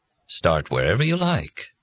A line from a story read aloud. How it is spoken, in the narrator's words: Kindly Dad said graciously